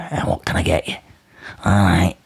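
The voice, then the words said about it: Shady character voice. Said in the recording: “I don't know why you have to do that voice... Why is he mank?”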